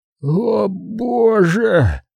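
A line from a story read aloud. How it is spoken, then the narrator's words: Wheezing. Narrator (Russian): просипел Луи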